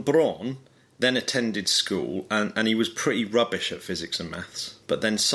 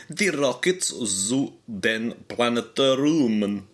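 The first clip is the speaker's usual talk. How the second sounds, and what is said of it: Put-on German accent. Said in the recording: “Do you like how good my Russian accent... I mean, my German accent was then... Well, yeah, it's pretty good. It is pretty good.”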